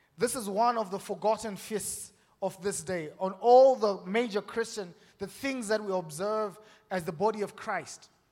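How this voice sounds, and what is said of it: African accent. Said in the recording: “my accent is pretty much African”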